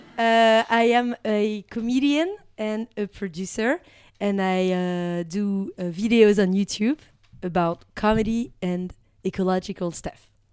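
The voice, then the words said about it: Slight accent in English. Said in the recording (French): “There is a little bit accent.”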